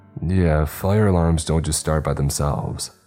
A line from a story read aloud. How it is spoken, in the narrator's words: I said